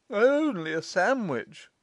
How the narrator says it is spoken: sneered Vance

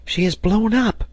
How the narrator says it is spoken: cried Herbert

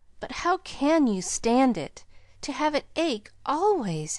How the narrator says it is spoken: gasped Pollyanna

